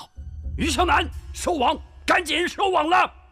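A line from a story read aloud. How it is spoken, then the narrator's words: Loud shout. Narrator (Chinese): 古正文 大声喊道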